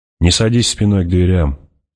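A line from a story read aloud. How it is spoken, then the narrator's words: Plain. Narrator (Russian): сказал Пауль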